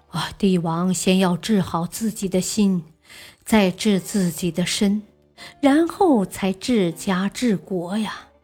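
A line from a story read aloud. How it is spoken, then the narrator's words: Sighing. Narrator (Chinese): 王道士嗟叹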